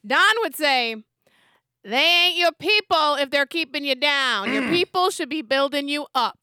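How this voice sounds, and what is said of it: Imitates another person's voice. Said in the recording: “best Don impersonation I have. I know it's really bad.”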